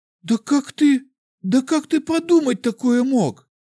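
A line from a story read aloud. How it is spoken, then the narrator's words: Sobbing girl. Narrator (Russian): Девушка всхлипнула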